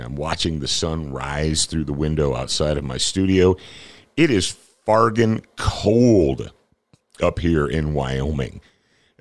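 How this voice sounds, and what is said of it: Rough, slightly hoarse morning voice. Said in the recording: “my voice sounds a little rough this morning”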